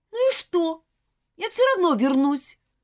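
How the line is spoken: Snapping retort. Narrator (Russian): огрызнулась Элизабет

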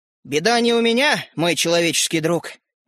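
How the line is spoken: Sighing small man. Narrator (Russian): вздохнул человечек

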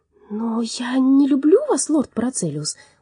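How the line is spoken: Embarrassed exclamation. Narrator (Russian): густо покраснев, воскликнула Элли

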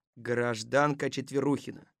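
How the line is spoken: Stern. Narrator (Russian): строго сказал Колобок

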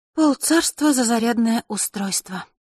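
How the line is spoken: Glum, with heavy sigh. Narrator (Russian): уныло произнесла Василиса и тяжко вздохнула

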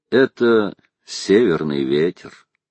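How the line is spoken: Calm, smiling. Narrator (Russian): Он улыбнулся и спокойно сказал

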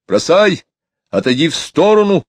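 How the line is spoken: Shouting. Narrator (Russian): кричал он

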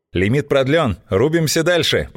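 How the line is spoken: Triumphant voice. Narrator (Russian): победным голосом сообщила Злата

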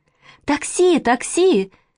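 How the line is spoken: Shouting. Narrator (Russian): закричала Маша

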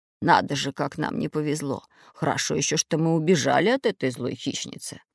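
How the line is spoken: Muttering. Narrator (Russian): пробормотал Семён Семёныч

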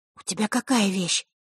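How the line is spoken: Whisper. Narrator (Russian): шепнула Василиса Захарре

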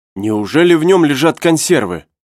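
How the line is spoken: Exclaiming. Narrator (Russian): воскликнул Наб

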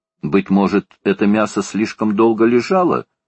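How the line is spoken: Calm question. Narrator (Russian): спокойно спросил Макнапс

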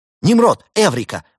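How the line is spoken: Exclaimed. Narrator (Russian): воскликнул техник

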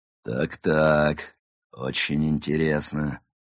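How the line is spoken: Menacing voice. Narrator (Russian): грозным голосом произнес некто

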